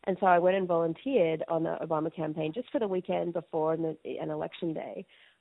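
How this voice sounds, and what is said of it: Australian accent. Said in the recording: “my accent obviously is not American ... go back to Australia”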